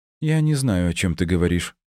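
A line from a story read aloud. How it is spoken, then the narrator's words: Calm reply. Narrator (Russian): спокойно ответила та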